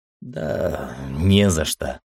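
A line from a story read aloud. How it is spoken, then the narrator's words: Distracted mumble. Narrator (Russian): пробормотал я, все еще пребывая в мыслях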